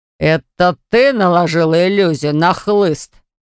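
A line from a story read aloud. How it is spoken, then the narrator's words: Male roar. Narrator (Russian): взревел он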